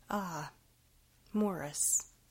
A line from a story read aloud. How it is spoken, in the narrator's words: began nervously